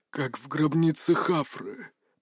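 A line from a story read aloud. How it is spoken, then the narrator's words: Mutter. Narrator (Russian): пробормотал Фарис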